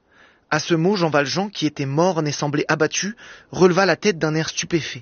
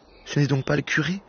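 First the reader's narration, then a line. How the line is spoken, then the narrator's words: Murmured. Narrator (French): murmura-t-il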